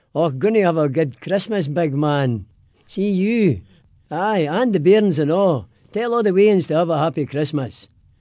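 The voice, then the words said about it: Broad Glaswegian Scottish accent. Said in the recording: “give me your best Merry Christmas in a Scottish brogue ... but in a Scottish accent in Glaswegian”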